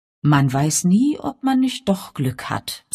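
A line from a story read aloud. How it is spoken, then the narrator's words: Cheerful. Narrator (German): sagte Father fröhlich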